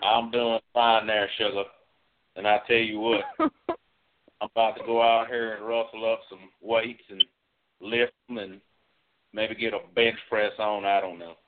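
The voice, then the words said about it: Put-on cowboy accent. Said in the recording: “At first I thought we were in Australia again, but then I realized quickly that Australians don't sound like cowboys. ... I couldn't quite place that accent”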